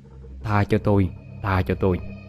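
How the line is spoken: Terrified mumbling. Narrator (Vietnamese): Chú Chính ... mặt không còn một chút máu, miệng thì lẩm ba lẩm bẩm

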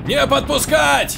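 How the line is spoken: Yelling. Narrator (Russian): орал Рейхард

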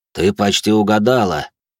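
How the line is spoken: Grumble. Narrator (Russian): проворчал Винсент

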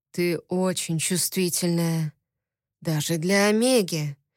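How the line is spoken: Hoarse and quiet. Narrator (Russian): охрипшим голосом негромко сказал он

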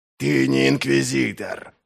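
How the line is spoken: Hiss. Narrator (Russian): прошипел Глокта

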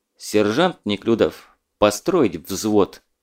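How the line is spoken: Stern command. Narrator (Russian): Также строго распорядился Закамолдин

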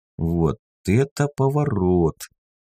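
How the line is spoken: Puzzled drawl. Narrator (Russian): протянул я озадаченно

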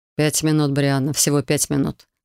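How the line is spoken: Dry, dragon. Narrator (Russian): сухо произнес дракон

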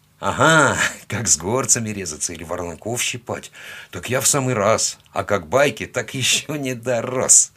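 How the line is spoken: Chuckling. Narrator (Russian): хохотнул я

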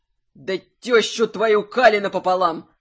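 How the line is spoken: Growl. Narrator (Russian): Прорычал

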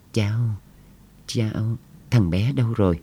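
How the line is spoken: Old man, shaky question. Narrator (Vietnamese): Ông cựu chủ tịch run run hỏi

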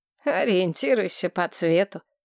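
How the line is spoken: Mentor's wry snort. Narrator (Russian): хмыкнул наставник

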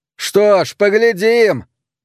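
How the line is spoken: Shouting after someone. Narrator (Russian): крикнул Пэт ему вслед

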